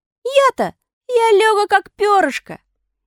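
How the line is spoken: Cheerful shout. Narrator (Russian): Пиноккио ... весело крикнул

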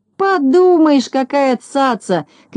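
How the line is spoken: Shouting after someone. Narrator (Russian): кричал ему вдогонку Незнайка

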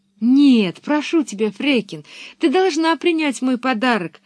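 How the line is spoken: Exclamation. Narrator (Russian): воскликнула Пеппи

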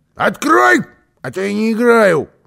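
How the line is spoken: Ghost's shout. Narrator (Russian): крикнуло привидение

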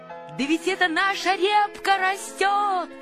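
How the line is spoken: Shout. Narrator (Russian): закричал Павлик

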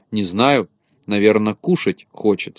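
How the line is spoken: Plain. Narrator (Russian): сказал Незнайка

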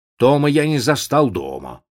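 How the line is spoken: Plain. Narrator (Russian): сказал мистер Джонс

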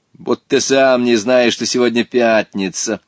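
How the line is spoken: Mocking child's reply. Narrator (Russian): насмешливо ответил мальчик

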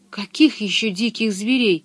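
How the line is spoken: Faltering voice. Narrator (Russian): спросила она дрогнувшим голосом

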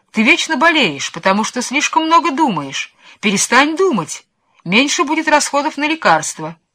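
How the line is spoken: Shouting. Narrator (Russian): графини снова кричали на него

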